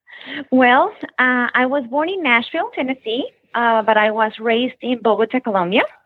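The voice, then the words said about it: Noticeable non-local foreign accent. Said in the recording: “with that accent, you are definitely not from Palm Palm Beach area.”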